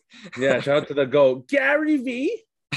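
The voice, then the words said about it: Imitates another person's voice. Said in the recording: “That was a great impression.”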